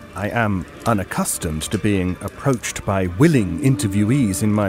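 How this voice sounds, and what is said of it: Usual voice. Nothing is said of it.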